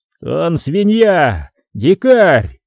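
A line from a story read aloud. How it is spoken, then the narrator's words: King's furious yell. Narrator (Russian): заорал король Франа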